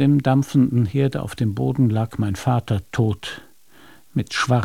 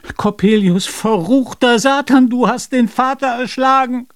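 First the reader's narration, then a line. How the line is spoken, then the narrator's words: Scream. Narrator (German): so schrie ich auf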